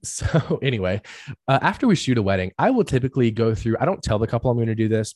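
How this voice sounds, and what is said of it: Hoarse, strained voice recovering. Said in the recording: “I can't talk, guys... I got super sick from it... my voice is still recovering”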